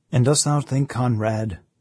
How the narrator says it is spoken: said the old man, in his gentle, patient voice

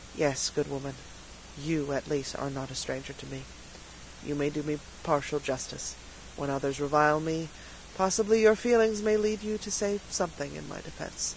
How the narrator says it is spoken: kindly, and his own features lost some of their painful expression as he said

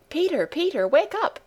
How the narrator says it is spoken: called out Heidi

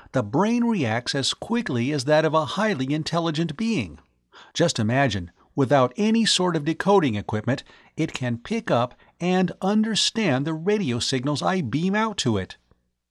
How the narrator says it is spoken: he exclaimed

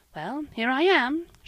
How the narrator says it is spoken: she said with a sigh of relief

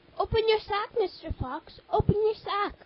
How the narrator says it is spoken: cried the cat to him

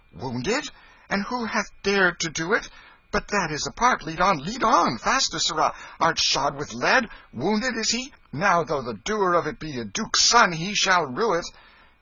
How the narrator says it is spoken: The king's manner changed at once, and he cried out

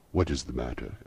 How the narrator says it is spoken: asked the spirit

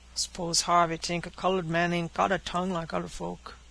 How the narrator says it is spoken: grumbled the black

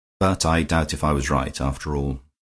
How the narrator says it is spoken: added more sadly

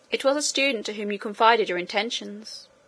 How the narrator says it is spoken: answered the servant

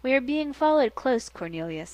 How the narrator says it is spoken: he said calmly

